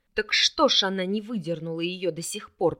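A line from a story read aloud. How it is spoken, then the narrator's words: Near growl. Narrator (Russian): почти зарычал Вард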